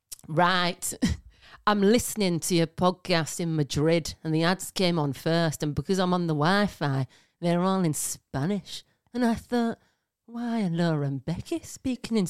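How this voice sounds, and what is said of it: Put-on Barnsley accent. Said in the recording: “I'm going to try and do it in her accent, right? Because she's from Barnsley ... she got a bit of a voice like this”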